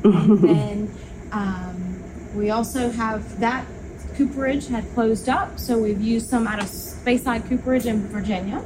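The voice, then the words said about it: Local regional accent. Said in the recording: “You can tell from my accent, we're from here.”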